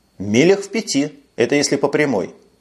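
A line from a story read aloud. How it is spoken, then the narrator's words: Dry reply. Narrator (Russian): сухо ответил Макнейл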